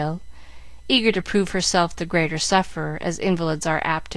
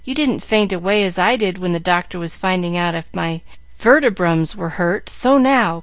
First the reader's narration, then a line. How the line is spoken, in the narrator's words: cried Jill, bound to carry out her point